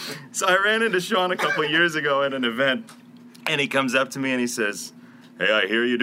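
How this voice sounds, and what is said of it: Usual voice. Nothing is said of it.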